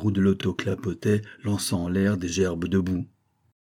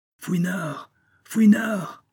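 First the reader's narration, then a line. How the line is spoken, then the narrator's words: Shrill cry. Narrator (French): cria une voix aiguë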